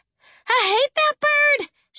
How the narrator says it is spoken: hollered, tears sending little rivers of mascara down her cheeks

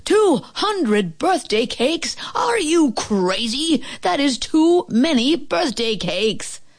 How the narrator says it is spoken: The man at the bakery yelled

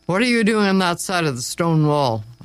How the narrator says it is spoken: a voice growled

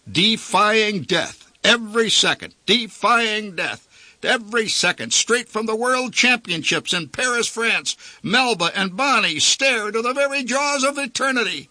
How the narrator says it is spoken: yelled the barker

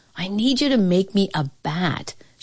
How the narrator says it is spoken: Shoeless Joe replied

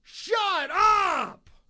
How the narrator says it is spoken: yell

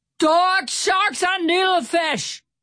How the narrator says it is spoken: Stout Sam shouted

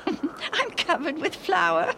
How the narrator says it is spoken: she laughed

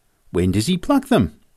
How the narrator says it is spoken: I exclaimed

